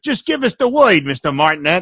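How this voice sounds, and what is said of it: Goon voice, Brooklyn accent. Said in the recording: “I'm adding the Brooklyn accent”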